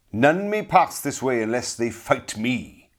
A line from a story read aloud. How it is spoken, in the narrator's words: cried harshly